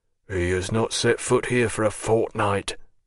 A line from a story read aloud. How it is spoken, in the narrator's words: muttered a voice